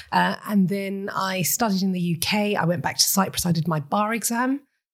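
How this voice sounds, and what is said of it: British-sounding accent. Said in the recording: “British mum, hence the accent.”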